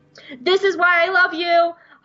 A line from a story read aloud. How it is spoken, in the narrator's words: Hondo shouts